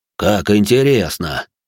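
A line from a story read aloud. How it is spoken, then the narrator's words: Genial deep bass. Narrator (Russian): Благодушно пробасил Рэй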